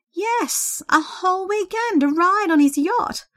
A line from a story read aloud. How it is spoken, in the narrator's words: Sandra exclaimed ecstatically